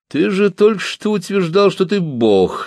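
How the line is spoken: Laughing. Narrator (Russian): засмеялся Бас

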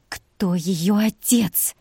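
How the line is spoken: Hiss. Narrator (Russian): прошипела

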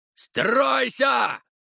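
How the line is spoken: Loud yell. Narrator (Russian): заорал он

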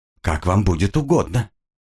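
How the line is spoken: Calm, restrained. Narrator (Russian): удержался от резкого ответа и спокойно произнес

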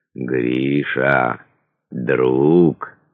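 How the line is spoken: Tender. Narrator (Russian): нежно говорил Элеодор

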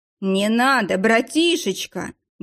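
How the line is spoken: Wailed. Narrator (Russian): взвыл Ефим

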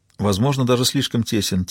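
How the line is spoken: Quiet agreement. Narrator (Russian): тихо согласилась Джозефина

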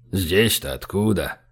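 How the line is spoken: Mumbling. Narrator (Russian): пробормотал он

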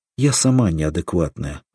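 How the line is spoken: Sighing. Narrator (Russian): вздохнула Ольга

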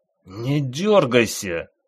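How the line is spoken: Hiss through clenched teeth. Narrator (Russian): Прошипел сквозь сжатые зубы ревизор

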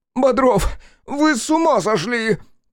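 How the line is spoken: Shrill womanish squeal. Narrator (Russian): По бабье взвизгнул он

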